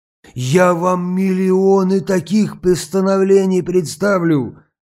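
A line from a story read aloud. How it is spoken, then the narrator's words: Exclaimed. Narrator (Russian): воскликнул Павел Петрович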